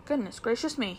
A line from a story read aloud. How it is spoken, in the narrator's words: he exclaimed